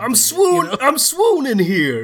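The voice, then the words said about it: Bad put-on New York accent. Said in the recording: “That's a very bad New York accent.”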